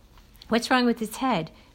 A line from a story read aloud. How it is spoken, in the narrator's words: Dale asked, his voice wavering